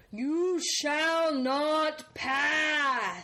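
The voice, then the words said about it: Impression of Gandalf. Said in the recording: “hear your impression of him, the one line that you knew of Gandalf”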